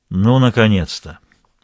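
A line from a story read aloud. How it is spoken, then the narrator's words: Sighing. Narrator (Russian): вздохнул Ланжале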